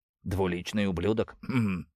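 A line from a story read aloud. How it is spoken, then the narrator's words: Sad, smiling. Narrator (Russian): грустно улыбнулся Кайрос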